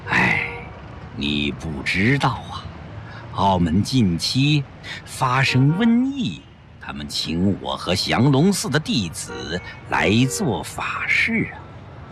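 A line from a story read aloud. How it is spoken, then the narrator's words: Sighing. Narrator (Chinese): 宽灵法师叹了口气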